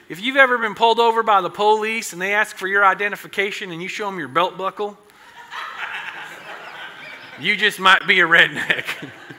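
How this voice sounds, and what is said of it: Put-on Southern US accent. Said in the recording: “that southern accent was pretty good too”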